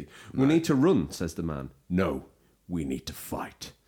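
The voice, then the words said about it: Impression of game trailer voices. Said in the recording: “That's a great impression. ... It was almost like the trailer was playing.”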